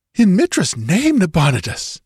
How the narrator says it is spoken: gasped Murillo, shaken

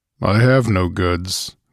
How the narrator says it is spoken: growled the Cimmerian

